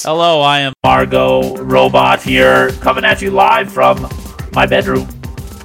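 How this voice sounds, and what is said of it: Electronically altered voice. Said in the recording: “I got this toy. I don't know if you saw it. It's a voice changer.”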